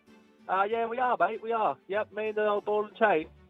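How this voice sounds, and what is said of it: Put-on English accent. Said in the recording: “I reckon Englishmen would be doing this ... I don't mind ... accent there”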